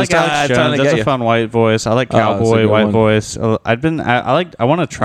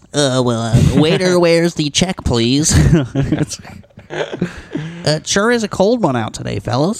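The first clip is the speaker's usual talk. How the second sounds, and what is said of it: Mimics a stereotypical white voice. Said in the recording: “Do a black person doing a white voice”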